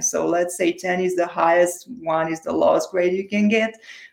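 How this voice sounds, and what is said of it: Romanian accent. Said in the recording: “I was born and raised in Romania, in case you wonder about my accent.”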